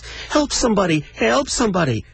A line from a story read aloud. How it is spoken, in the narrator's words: squealed